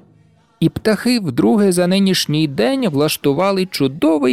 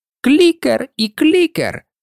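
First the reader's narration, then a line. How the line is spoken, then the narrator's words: Cocky squeak. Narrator (Ukrainian): задирливо запищав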